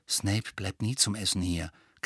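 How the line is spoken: Low voice. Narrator (German): klärte Ron Harry mit leiser Stimme auf

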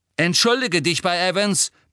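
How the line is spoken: Shouting. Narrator (German): brüllte James

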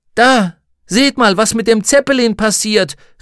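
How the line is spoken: Called out. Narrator (German): rief

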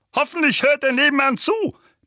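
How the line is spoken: Barking. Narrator (German): bellte Onkel Vernon

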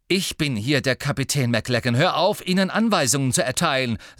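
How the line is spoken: Angry. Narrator (German): sagte Harry wütend

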